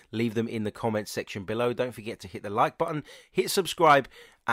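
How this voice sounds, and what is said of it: Croaky voice that keeps breaking. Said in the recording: “my croaky voice, the fact that my voice keeps breaking up. I am a little bit under the weather.”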